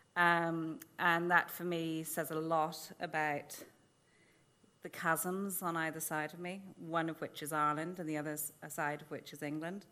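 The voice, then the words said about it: RP English accent. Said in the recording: “my, unfortunately, RP accent, which isn't really allowed to be Irish”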